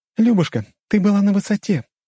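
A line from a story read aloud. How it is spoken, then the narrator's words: Squeak. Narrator (Russian): пискнула Мышкина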